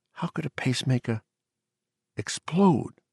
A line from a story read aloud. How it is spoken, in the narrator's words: Torgerson asked softly